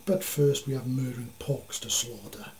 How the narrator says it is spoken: Citrus snarled

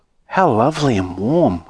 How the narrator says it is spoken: whispered Charlie

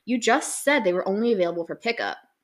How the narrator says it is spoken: he replies in an annoyed tone

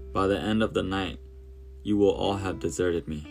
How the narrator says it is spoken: said

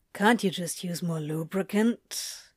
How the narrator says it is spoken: He mumbled

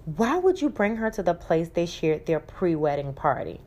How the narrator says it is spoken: Kelly mutter to Jay

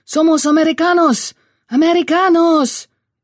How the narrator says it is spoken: Joe yelled back

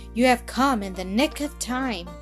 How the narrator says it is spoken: cried Miller

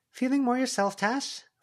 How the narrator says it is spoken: Verona called out

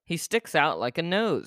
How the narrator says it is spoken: snapped his father

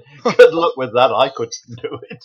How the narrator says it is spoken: Terry just laughed and said

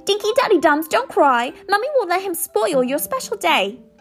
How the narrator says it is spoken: she cried

